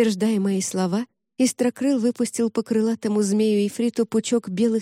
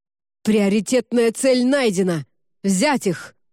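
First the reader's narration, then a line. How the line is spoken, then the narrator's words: Commander's barked order. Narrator (Russian): рявкнул командор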